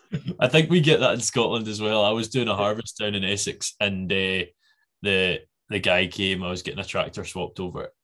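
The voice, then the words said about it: Scottish accent. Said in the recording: “he heard the accent, and he's like, oh, you're not from here ... oh, Scotland, mate”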